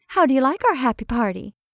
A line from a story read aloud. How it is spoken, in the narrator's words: said Betty cheerfully